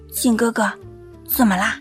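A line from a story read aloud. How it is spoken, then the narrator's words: Puzzled, quiet question. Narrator (Chinese): 麦青青不解，低声问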